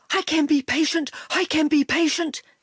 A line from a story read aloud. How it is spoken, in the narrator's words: panted